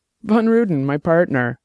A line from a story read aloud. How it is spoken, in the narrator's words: Lino said, laughing